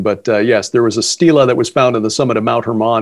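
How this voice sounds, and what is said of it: Rich polished radio voice. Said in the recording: “you have the best radio voice of anyone we've interviewed so far”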